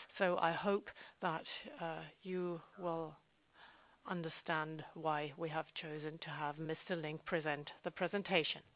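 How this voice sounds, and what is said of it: Sick-sounding, altered voice. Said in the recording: “I am somewhat sick ... you will have heard that my voice is not what is what it usually is”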